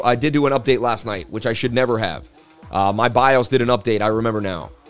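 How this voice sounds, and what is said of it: Sounds like a sports presenter. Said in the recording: “You sound like a sports presenter.”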